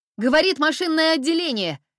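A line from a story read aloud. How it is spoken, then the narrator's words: Shout. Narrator (Russian): закричала Нелинья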